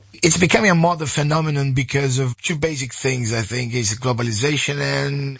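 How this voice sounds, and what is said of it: Sore, slightly hoarse voice. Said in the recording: “My voice is a bit sore”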